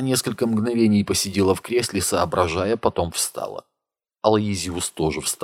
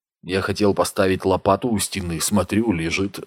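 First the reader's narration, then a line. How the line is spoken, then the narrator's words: Plain. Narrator (Russian): сказал Макс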